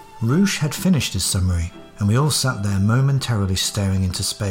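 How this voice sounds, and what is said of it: Usual voice. Nothing is said of it.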